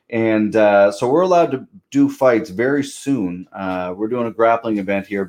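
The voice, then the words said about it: East Coast Canadian accent. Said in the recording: “That's a Canadian accent I'm hearing. ... That's a Canadian accent. ... on the East Coast of Canada”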